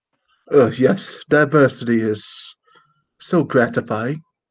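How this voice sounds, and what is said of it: Bad put-on English accent. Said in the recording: “my bad attempt at an English accent”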